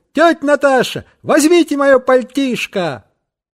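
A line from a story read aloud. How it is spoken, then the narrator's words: Shouting. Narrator (Russian): крикнул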